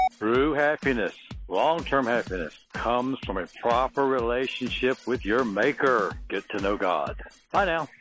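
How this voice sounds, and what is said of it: Good radio voice. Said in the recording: “you have a better radio voice, way better than I do.”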